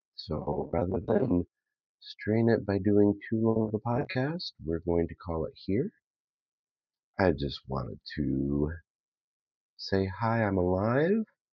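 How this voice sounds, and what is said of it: Voice affected by a cold. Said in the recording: “as you possibly can hear from my voice, possibly not, I have a cold”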